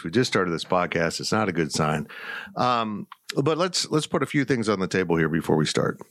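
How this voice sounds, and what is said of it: Strained, hoarse voice. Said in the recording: “I'm already losing my voice.”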